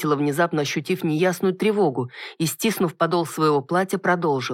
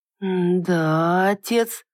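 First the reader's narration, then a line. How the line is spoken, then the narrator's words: Drawn-out, puzzled. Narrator (Russian): протянул, не понимая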